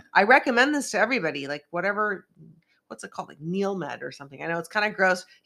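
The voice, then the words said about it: Hoarse, congested voice. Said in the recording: “I've been losing my voice all day, so please excuse me. And I've been doing this like sinus rinse thing, so it sounds like I have a cold ... so I sound a little congested”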